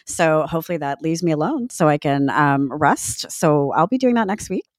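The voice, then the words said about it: Husky, congested voice. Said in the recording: “my very sexy voice right now, I do have a cold”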